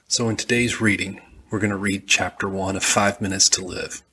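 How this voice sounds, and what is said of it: Southern American accent. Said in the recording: “I'm from Alabama, and I have a southern accent.”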